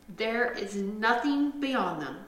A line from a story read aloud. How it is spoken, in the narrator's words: said Father Snail